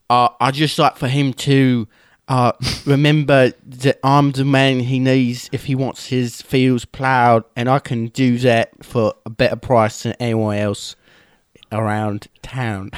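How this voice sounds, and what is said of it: Put-on Cockney British accent. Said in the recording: “that is a great accent, but that's a Cockney accent of a very lower class Englishman ... this is the only British accent that I can do”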